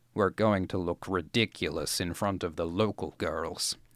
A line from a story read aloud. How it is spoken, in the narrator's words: he grumbled